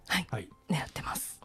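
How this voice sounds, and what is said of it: Whispering. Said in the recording (Japanese): “ささやいたね ... ウィスパーボイスで”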